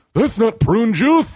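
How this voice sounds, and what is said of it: Imitates another person's voice. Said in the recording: “I'm going to do an impression of him and it's just going to sound like I'm making it up, but like it's a pretty good impression.”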